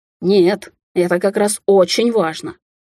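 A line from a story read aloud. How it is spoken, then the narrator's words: Snapping back. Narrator (Russian): огрызнулся Даниэль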